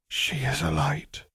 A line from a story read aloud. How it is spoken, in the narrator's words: whispered Alice Longbottom